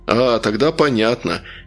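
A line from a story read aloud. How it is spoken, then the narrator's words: Uncertain drawl. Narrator (Russian): по-прежнему неуверенно протянул Трясогузов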